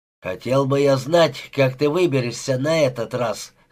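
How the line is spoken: Smirking monk. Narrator (Russian): хмыкнул монах

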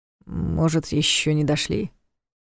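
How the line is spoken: Uncertain. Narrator (Russian): Все же неуверенно предположил он

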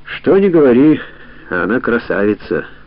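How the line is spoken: Sighing. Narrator (Russian): вздохнул Ямадзи

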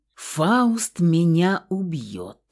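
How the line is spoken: Sepulchral voice. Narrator (Russian): загробным голосом проговорил парень

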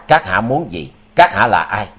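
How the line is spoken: Shouted. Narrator (Vietnamese): Nam Cực Tiên Ông quát

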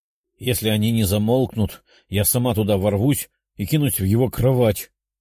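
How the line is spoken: Angry female growl. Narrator (Russian): Со злостью прорычала Орчиха

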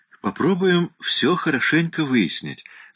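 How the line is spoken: Soft, friendly, feigned casualness. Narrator (Russian): сказал дед мягким, дружелюбным тоном, стараясь, чтобы его собеседница не поняла, сколь важны ему эти сведения

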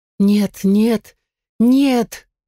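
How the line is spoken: Moaning. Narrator (Russian): застонала

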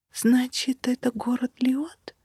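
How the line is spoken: Awed whisper. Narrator (Russian): прошептала я, любуясь величественной картиной

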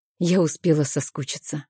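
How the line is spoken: Soft. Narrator (Russian): мягко произношу я

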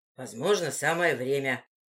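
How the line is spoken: Muttered. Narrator (Russian): пробормотал Вильда

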